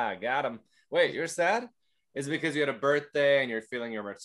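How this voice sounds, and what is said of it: Usual voice. Nothing is said of it.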